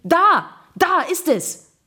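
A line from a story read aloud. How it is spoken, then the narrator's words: Shouting. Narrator (German): bis Gregor schrie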